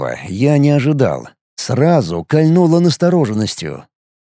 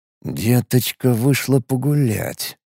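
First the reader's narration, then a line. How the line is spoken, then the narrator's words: Thoughtful mutter. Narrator (Russian): задумчиво пробормотал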